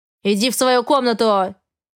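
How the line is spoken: Barked. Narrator (Russian): рявкнул он

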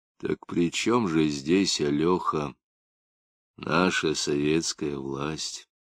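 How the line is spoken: Quiet question. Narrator (Russian): Лапшин негромко спросил

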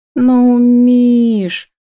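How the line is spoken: Purring. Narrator (Russian): Промурлыкала Ева

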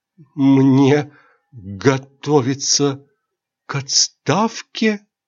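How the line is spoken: Terrified, trembling voice. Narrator (Russian): замирая от ужаса, дрожащим голосом спросил

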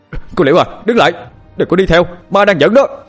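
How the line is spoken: Terrified shout. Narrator (Vietnamese): Gấu kinh hoàng hét lên

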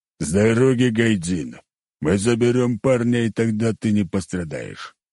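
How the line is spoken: Deep bass voice. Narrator (Russian): пробасил

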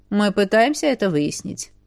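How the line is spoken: Calm reply. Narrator (Russian): спокойно ответил

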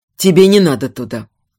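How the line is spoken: Quiet, unusually gentle. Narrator (Russian): тихо сказал медведь, с какой-то несвойственной ему мягкостью

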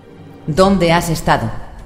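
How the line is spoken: Accusing question. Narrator (Spanish): preguntó Peck en tono acusador

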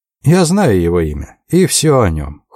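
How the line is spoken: Cold announcement. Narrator (Russian): холодно объявил Рэндальф

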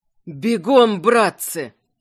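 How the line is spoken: Hoarse, fear-strained voice. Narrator (Russian): Севшим от страха голосом прохрипел Заренец, не стыдясь своего испуга

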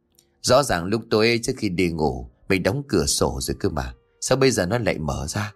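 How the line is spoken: Muttering. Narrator (Vietnamese): miệng lẩm bẩm

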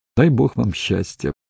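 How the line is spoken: Sigh. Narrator (Russian): Стефан вздохнул

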